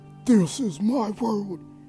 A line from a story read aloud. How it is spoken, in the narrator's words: he yelled